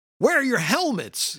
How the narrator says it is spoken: one of the guys, presumably the lieutenant, yells at them

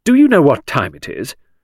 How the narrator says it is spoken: said Midge sternly

